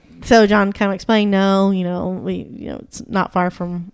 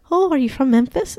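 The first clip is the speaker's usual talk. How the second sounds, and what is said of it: Put-on exaggerated Irish accent. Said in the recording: “Can you do a good Irish? ... That's a little too much.”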